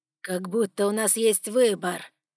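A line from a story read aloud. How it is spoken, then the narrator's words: Dragon's growl. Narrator (Russian): рыкнул дракон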